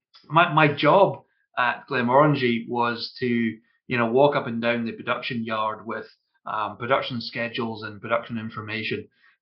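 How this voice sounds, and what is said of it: Scottish accent. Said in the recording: “which is a whiskey distillery in Scotland. You can probably tell from my accent.”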